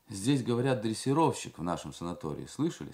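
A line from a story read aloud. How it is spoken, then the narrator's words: Plain. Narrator (Russian): сказал другой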